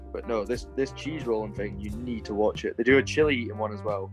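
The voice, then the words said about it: Mostly Scottish accent. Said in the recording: “you've also got like a mostly Scottish accent.”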